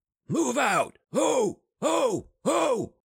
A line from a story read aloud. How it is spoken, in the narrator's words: with each call, trying to hear himself amidst the joined, roaring yells of his cohorts